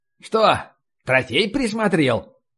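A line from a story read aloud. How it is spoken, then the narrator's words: Wry snort. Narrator (Russian): Он хмыкнул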